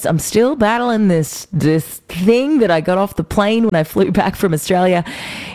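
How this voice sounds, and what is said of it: Husky, lower-pitched strained voice. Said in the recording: “I'm sure you can still hear in my voice... the voice is still a little on struggle street... I'm singing a lot lower notes at the moment, and maybe not so many high ones... the huskiness”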